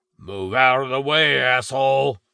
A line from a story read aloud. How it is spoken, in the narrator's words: bellowed Piercings